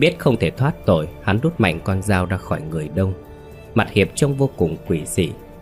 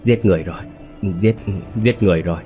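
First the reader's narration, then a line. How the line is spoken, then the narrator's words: Frightened, trembling, crazed muttering. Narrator (Vietnamese): sợ hãi run rẩy, miệng lẩm bẩm như người mất trí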